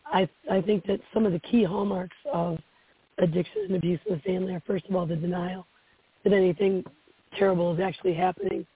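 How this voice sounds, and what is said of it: Slightly hoarse voice. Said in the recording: “I'm a little hoarse from recovering from a cold”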